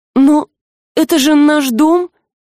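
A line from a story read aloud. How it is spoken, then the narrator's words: Confused girl's babble. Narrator (Russian): растерянно пролепетала девушка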